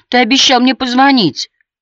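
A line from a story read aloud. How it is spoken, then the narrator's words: Thin little-girl voice. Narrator (Russian): заговорила тоненьким голоском маленькой девочки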